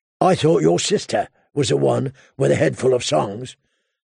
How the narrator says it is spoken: the hound growled

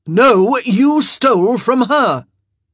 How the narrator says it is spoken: Benedict roared

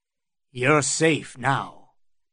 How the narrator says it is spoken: murmured Sir Kyle

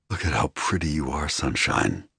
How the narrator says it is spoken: I purred

